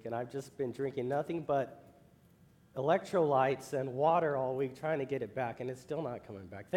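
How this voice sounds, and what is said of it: Hoarse, mostly lost voice. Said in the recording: “as you can hear in my voice, I'm a little bit gone. I lost my voice”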